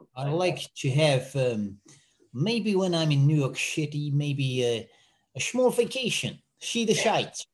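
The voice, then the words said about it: Put-on Dutch accent. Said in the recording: “how would you say in Dutch? I'm trying to do the accent. ... It almost sounds slightly American, doesn't it?”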